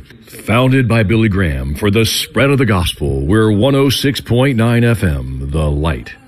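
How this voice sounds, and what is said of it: Big radio announcer voice. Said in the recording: “do my big voice now? Can I do the big voice?”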